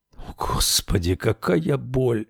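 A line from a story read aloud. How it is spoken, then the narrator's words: Groaning. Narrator (Russian): Джо застонал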